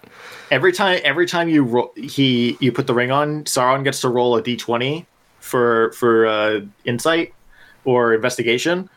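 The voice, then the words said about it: Voice in poor condition. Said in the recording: “my voice isn't really great today”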